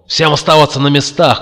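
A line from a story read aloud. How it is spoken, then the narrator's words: Shout into ear. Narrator (Russian): крикнул Макс в левое ухо Кертиса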